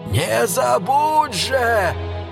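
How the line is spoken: Old man shouting after. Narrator (Russian): крикнул ему вслед старик

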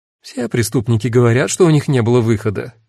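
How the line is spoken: Snide interjection. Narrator (Russian): ехидно вставила Кара

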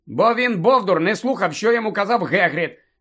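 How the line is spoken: Angry interruption. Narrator (Ukrainian): сердито втрутився Гаррі

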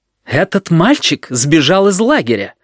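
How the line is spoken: Indignant announcement. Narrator (Russian): возмущенно известил директор

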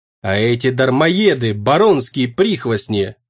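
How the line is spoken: Growling. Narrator (Russian): прорычал Навкратий

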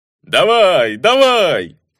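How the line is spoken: Egging-on shout. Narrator (Russian): кричал один из них, подзадоривая девицу

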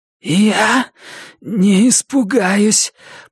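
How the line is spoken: Hoarse from thirst. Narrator (Russian): прохрипела Джесси осипшим от жажды голосом

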